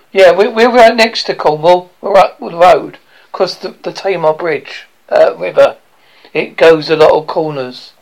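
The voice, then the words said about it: Essex and Devon English accent. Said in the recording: “I got an Essex Devon accent.”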